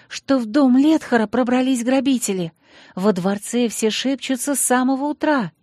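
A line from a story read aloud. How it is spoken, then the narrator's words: Angry hiss. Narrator (Russian): сердито зашипела она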